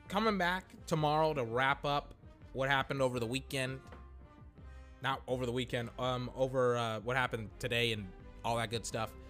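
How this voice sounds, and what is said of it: Tired, worn-out voice. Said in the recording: “I'm very tired. My voice is tired. I've been podcasting for over 6 hours today.”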